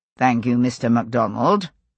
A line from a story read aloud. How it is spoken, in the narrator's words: Randall said dryly